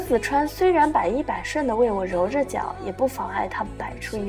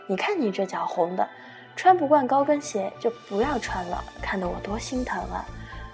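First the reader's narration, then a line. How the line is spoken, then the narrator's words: Gentle. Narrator (Chinese): 他温柔的回应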